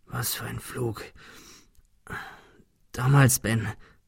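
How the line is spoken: Stammering. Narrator (German): stammelte er

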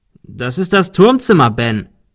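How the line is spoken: Called out. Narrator (German): rief Arthur

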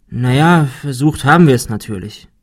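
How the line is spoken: Sighing. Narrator (German): seufzte Ben

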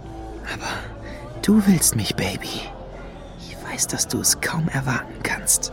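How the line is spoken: Whispered to her. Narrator (German): flüsterte er Lady Luna zu

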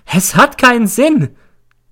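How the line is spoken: Shrieking. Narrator (German): kreischt sie

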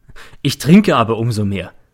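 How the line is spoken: Said laughing. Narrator (German): sagte er und lacht

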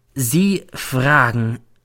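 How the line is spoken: Slow speech. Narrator (German): sagt dann langsam

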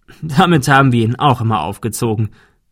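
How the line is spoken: Laughing. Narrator (German): der Notar lachte

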